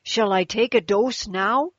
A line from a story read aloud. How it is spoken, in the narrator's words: asked the woman excitedly